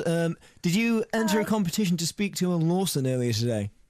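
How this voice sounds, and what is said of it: Put-on funny voice. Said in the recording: “this sounds like ... funny voice”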